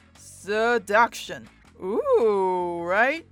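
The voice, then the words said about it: Weird put-on seductive voice. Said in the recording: “did that weird voice”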